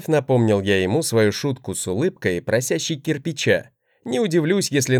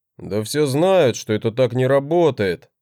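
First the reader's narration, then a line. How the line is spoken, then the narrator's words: Displeased grumbling. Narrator (Russian): проворчал он с недовольным лицом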